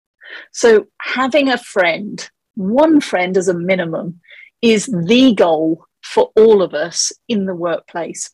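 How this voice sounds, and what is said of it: English accent. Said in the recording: “your accent tells me that you had some interesting experiences ... the accent is actually from England”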